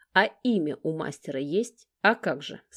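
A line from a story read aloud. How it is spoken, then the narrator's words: Calm, composed. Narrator (Russian): Спокойно кивает и невозмутимо отвечает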